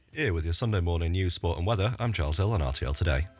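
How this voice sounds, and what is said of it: Puts on a strong Leeds accent. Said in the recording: “the news in a strong Leeds accent”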